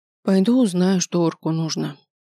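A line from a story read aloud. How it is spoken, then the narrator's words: Sighing. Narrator (Russian): вздохнула я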